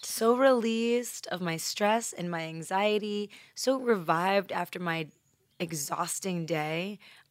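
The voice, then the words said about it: Exaggeratedly relaxed, calm voice. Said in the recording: “I'm not even doing this voice by choice. It's just how I sound when I'm so relaxed.”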